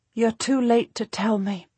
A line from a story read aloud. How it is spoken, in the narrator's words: she says, her voice silky and warm